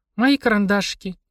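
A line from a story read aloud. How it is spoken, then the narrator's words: Sad sigh. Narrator (Russian): грустно вздохнула она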